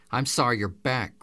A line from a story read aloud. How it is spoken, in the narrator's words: Grandma snapped